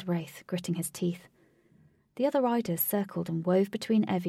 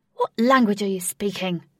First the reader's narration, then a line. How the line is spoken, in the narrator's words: Wraith angrily asked